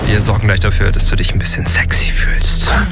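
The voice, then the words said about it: Whispering. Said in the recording (German): “dass ich geflüstert habe ... Möchtest du nicht, dass ich flüstere? ... ich mag dich nur, wenn du laut redest”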